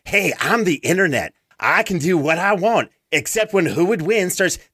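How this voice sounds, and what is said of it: Put-on mocking accent. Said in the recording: “that's my best accent”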